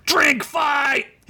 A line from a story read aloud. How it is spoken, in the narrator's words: he yelled